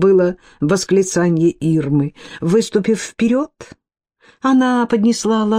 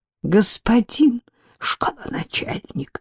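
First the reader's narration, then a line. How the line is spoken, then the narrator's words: Whispered. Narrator (Russian): прошептала она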